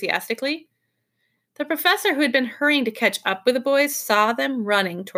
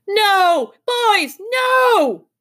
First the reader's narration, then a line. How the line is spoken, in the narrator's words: He yelled at the top of his voice